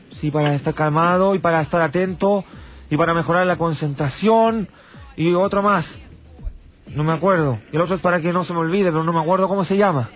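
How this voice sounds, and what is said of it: Speaks Spanish with a foreign-sounding accent. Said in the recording (Spanish): “¿Es extranjero usted? ... ¿y por qué tienes acento?”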